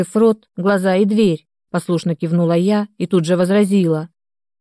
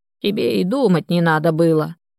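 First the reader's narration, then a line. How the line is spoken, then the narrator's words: Old woman grumbling. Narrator (Russian): проворчала старушка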